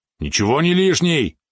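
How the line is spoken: Indignant yap. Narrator (Russian): возмущенно тявкнул Валерон

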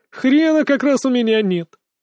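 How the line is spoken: Melodious laugh. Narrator (Russian): Мак опять мелодично засмеялся

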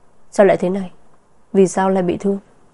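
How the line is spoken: Cold question. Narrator (Vietnamese): Vân Sở ánh mắt lạnh lùng hỏi

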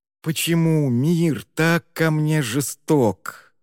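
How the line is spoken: Whiny drawn-out complaint. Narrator (Russian): плаксиво протянул Ер

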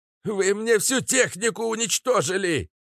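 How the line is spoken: Near shriek. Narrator (Russian): почти взвизгнул Филиппыч

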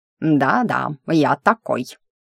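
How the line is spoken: Smug snort. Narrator (Russian): хмыкнуло недоразумение природы

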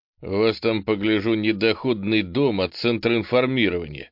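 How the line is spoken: Snorted. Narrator (Russian): хмыкнул попаданец

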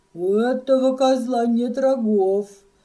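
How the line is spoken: Proud laughter. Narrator (Russian): сказал он и гордо засмеялся

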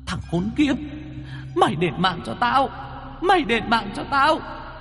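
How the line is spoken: Ghostly hissing shriek. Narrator (Vietnamese): Hồn quỷ bà Niềm trông thấy Mo Hợi thì rít lên

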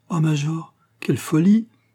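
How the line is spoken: Widow exclaiming. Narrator (French): s'écria la veuve

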